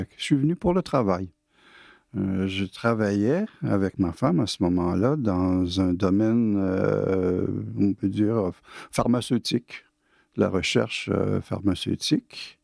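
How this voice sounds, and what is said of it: Québécois French accent. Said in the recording (French): “D'après mon accent, vous allez bien deviner que je ne suis pas français. Je suis canadien, je suis né à Québec ... trop formaté pour changer mon accent”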